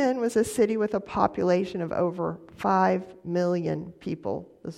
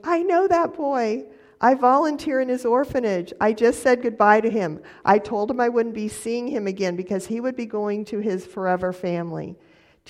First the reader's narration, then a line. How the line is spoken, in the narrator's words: she exclaimed